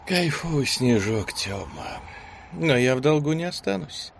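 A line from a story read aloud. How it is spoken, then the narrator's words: Young woman's languid purr. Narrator (Russian): томным голосом проурчала девушка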